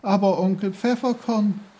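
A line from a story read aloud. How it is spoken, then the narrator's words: Horrified cry. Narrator (German): rief entsetzt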